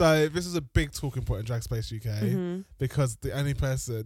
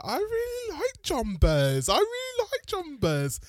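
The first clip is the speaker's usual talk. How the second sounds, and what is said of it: Put-on Wolverhampton accent. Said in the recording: “Is that your little, is it Brummie accent? ... My Wolverhampton. ... Wolverhampton accent.”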